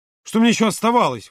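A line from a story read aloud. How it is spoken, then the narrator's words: Exclaiming. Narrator (Russian): воскликнул Володя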